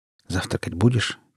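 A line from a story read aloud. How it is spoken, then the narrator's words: Quiet, leaning close. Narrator (Russian): тихо наклонился я к нему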